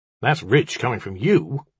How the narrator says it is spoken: Mandrake snapped

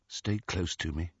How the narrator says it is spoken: he said quietly

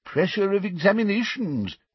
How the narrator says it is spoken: said the old wizard sympathetically

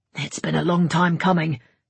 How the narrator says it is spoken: grunted Grimm

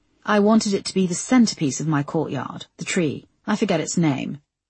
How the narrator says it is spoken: said Giles smoothly

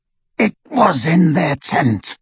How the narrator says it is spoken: rasped Greyback

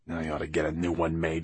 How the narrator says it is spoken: he muttered

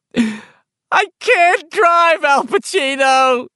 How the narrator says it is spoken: she bawled

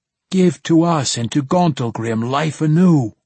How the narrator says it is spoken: pleaded

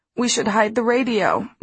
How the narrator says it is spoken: moaned Mrs

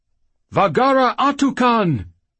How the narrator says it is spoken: he cried

